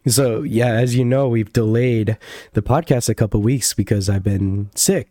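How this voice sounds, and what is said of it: Slightly hoarse voice. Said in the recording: “You might even hear my voice is a little hoarse right now.”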